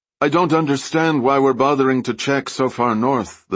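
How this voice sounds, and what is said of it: Vaguely Nordic accent. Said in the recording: “Her accent was vaguely Nordic.”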